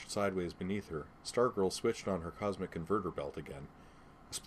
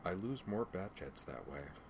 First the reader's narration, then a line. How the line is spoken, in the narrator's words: Batgirl muttered